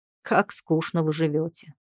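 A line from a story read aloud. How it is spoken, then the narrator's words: Amused snort. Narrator (Russian): хмыкнул муж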